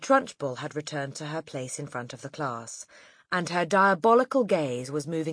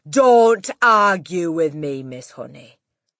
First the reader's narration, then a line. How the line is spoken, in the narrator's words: the headmistress thundered